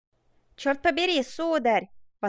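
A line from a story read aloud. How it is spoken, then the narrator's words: Exclaimed. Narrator (Russian): воскликнул незнакомец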